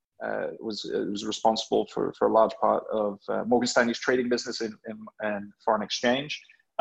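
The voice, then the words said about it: English accent. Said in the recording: “English accent”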